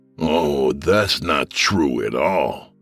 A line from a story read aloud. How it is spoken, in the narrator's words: the gunman sneered